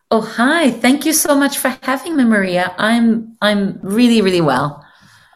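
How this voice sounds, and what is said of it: Lovely, hard-to-place Norwegian accent. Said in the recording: “You got such a lovely accent. ... I could not figure where you're from ... you were from Norway”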